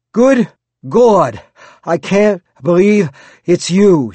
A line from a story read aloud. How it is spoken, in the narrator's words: panted